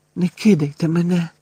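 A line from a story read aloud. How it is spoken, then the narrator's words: Whispering. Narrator (Ukrainian): прошепотів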